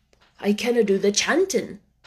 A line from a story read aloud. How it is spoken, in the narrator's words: said Ben Weatherstaff, a trifle testily